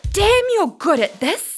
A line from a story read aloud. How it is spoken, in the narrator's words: she screamed